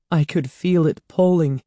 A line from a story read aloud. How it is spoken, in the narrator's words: Andy said shakily